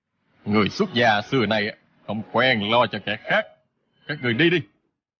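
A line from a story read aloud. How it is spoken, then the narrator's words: Cold scoffing. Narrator (Vietnamese): Người kia hừ một tiếng, lạnh lùng nói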